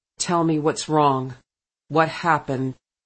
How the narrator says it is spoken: in a gentle but firm voice, with a distinct note of command in it, he said

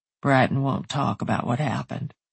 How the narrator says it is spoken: he murmured

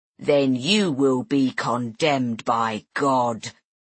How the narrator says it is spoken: rumbled Brother Wendell

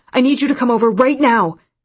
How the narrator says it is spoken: Solomon said frantically

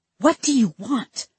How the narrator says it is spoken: I hissed

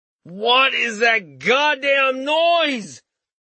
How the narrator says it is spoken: Richter shouted while holding his head

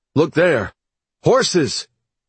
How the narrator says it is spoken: one soldier who glanced back across the plains and shouted

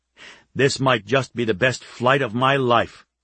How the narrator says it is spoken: he said

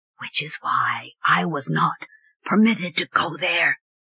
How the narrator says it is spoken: Starblade whispered

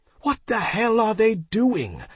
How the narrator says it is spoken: yelled Jenna

